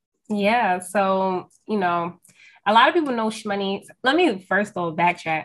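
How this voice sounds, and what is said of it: New York accent. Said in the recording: “I'm from New York, if y'all can't tell from my accent”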